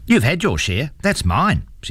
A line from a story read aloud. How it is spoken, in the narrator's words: she said firmly